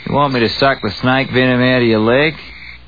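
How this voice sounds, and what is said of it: Australian accent. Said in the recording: “How to speak Australian”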